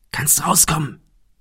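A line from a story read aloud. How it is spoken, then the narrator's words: Soft call. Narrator (German): rief Thomas leise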